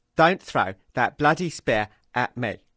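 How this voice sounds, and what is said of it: Imitates another person's voice. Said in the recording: “just do a little Michael Caine impersonation”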